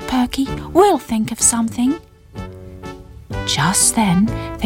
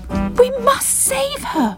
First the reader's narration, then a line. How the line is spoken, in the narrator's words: cried Bubble